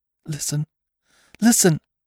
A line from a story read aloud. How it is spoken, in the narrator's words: cried Bess, with her lips close to Venter's ear